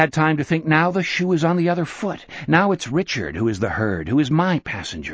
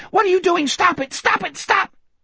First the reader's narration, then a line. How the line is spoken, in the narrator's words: Richard was still shrieking